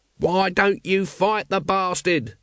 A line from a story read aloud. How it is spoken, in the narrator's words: shouted Nobby at the dwindling dragons